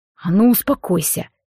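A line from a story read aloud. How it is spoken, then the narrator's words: Quiet growl. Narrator (Russian): тихо рыкнул Алекс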